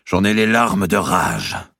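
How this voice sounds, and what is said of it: Sing-song southern French accent. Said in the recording (French): “avec l'accent bien chantant qu'avaient tous les seigneurs de la région”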